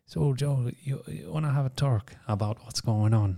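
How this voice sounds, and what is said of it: Attempted Irish accent. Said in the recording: “I can't do the Irish accent”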